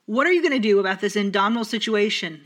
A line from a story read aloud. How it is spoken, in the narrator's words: The Baron shouted